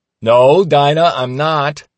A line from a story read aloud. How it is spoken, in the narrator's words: In the background, I hear my dad shout